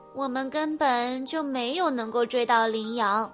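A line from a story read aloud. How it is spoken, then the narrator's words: Sighing. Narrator (Chinese): 齐拉雅叹了口气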